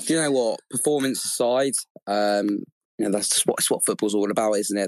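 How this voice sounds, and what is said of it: Hoarse, sore-throated voice. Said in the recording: “I've got a bit of a sore throat, to be honest with you, actually, from that last few minutes”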